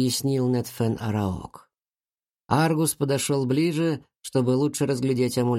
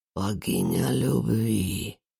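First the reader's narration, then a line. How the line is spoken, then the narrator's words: Whisper. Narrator (Russian): прошептал он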